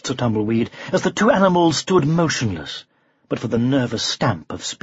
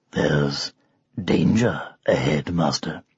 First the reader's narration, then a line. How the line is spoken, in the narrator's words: growled Arthur softly